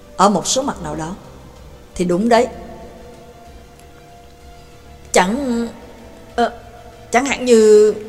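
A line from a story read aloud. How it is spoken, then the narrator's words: Stern voice. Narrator (Vietnamese): Pháp sư Á La nghiêm giọng nói với anh ta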